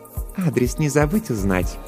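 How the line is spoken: Purring voice. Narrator (Russian): промурлыкала Жанна

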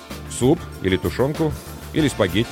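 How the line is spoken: Plain. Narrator (Russian): спросил я

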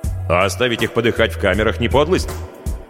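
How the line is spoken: Angry objection. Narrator (Russian): сердито возразил Хельмут

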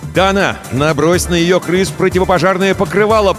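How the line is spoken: Shouted. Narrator (Russian): прокричал Крисмос

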